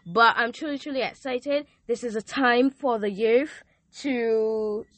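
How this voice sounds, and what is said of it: Speaks with a noticeable accent. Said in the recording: “Sorry for the accent.”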